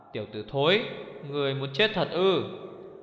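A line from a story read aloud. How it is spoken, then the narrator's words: Angry speech. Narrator (Vietnamese): Đao Lệ Thương tức giận bảo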